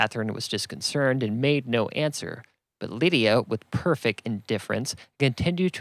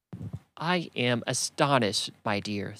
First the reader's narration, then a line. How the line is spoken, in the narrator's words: said Miss Bennet